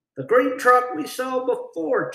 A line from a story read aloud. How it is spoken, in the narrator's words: Joe exclaimed